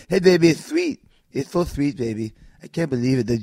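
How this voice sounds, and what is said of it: Imitates another person's voice. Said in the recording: “her best Dusty Rhodes impression”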